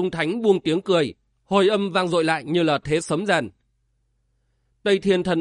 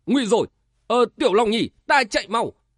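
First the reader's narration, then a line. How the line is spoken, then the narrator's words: Panicked loud shout. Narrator (Vietnamese): Tây Thiên thần ông hớt hải hét to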